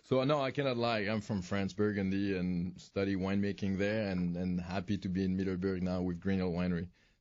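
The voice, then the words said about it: French accent. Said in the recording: “Listen to that accent ... are you faking being French?”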